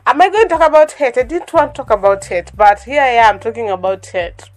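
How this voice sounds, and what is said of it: Voice affected by a cold. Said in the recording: “I don't know if you can tell by my voice, but yeah, I'm kind of having a cold.”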